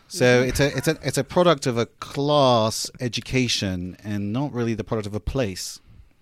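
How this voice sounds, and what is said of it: Upper-class English accent. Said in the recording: “my accent is worth 2 inches of height ... There's authority in an English accent ... this is only the accent of 1 or 2% of the population ... more of an education than a place ... More like boarding school, Oxford and Cambridge”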